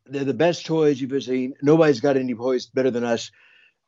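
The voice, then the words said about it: Imitates another person's voice. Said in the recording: “your Donald Trump impression”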